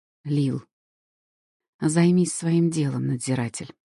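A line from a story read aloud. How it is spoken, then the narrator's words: Cold, curt remark. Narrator (Russian): холодно обронила я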